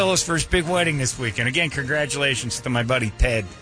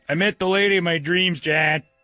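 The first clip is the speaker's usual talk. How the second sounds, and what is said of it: Put-on Chicago accent. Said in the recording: “Who's got a Chicago accent, Chicago accent.”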